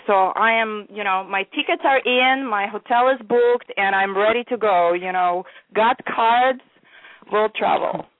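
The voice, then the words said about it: European accent, not American-born. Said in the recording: “it does the old school European style, and you can tell by her accent she wasn't born in America”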